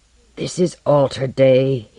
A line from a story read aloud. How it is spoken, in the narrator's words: he growled